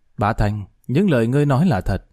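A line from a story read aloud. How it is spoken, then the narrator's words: Suddenly cold. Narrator (Vietnamese): Thái Kinh bỗng lạnh lùng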